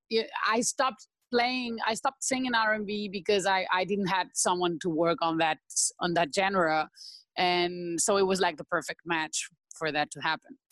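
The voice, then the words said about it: Spanish-accented English. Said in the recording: “why she has an accent, where's she from? ... She is from Spain.”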